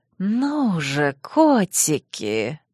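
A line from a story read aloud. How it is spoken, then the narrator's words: Near purr. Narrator (Russian): почти мурлыкнула моя тень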